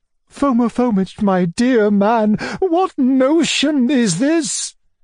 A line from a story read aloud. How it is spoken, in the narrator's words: cried Madame la Générale in despair, almost swooning with horror